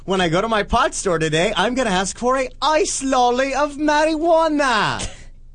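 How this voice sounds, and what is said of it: Put-on accent that slips midway. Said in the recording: “Like Colombian or ... something. ... Halfway through that accent, it just went wrong.”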